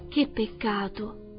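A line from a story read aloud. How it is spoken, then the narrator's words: Plain. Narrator (Italian): disse Dorothy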